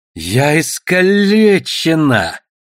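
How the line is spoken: Growled. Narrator (Russian): прорычала Душелов

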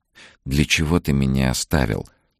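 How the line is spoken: Longing whisper. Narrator (Russian): шептала она тому, кто был так далеко

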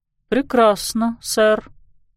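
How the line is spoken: Mumbling. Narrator (Russian): пробормотал Элджин

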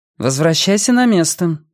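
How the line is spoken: Dry. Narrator (Russian): сухо сказала Йенни

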